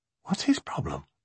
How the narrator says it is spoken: she whispered

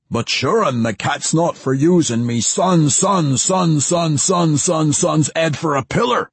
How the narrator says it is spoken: the old dwarf howled

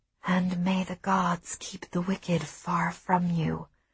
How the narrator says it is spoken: I whispered to myself

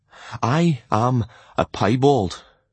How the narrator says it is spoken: he declared shakily

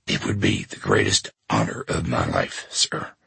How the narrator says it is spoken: he whispered

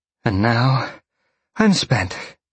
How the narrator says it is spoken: Jolene sighed

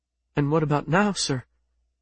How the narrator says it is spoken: Yushe said, her voice catching

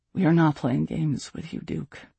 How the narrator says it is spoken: Aeryn said with a sigh

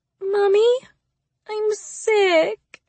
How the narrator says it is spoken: she whines

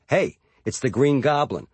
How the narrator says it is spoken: airport security guards happily greeting me with

